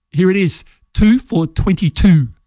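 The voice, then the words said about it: Weak impression of cricket commentator. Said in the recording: “the voice of Channel 9's cricket in its heyday ... I'll try my best interpretation or impersonation of Richie ... I don't think that was very good.”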